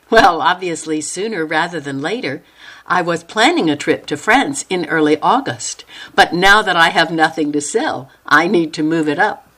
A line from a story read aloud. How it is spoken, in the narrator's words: Noelle laughed and said